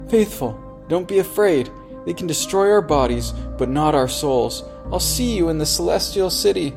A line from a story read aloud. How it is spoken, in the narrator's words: Christian called out